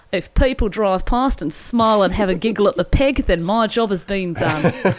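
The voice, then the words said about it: Put-on accent quoting someone. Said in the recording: “I'll do the accent.”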